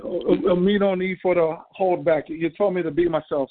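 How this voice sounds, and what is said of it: Strong native accent, no longer held back. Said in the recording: “this is the one who be holding back his accent”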